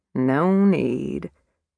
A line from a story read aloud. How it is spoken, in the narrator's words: Beasley said wearily